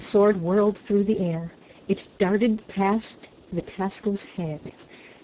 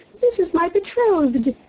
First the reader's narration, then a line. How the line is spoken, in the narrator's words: exclaimed the princess joyfully